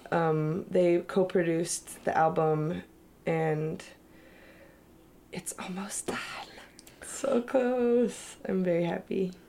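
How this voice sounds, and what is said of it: Sick, sniffly, congested voice. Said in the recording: “I sound sick and sniffly ... You're getting over a bit of a cold”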